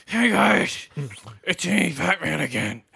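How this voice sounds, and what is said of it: Imitates a Batman voice. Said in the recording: “his fucking Batman impersonation”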